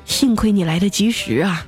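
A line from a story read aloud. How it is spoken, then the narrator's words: Long sigh. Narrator (Chinese): 那大夫皱着眉 长叹了一口气说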